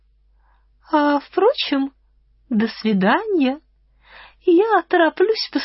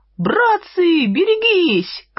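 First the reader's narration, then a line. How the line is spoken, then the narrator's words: Shout. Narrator (Russian): крикнул кто-то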